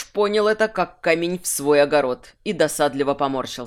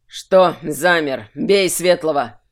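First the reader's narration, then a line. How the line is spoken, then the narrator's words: Barking. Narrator (Russian): рявкнул Тверен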